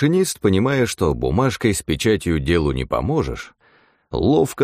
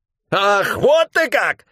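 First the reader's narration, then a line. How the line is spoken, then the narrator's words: Shrill squeal. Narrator (Russian): взвизгнул тот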